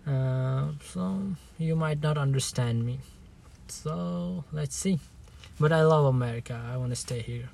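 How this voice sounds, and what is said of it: Non-native English accent. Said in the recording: “I'm not American ... English is not my first language ... I got a accent”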